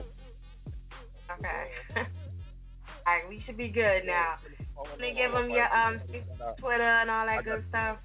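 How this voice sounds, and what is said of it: New Jersey accent. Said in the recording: “I have a Jersey accent.”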